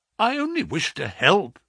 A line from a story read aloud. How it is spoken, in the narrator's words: I exclaimed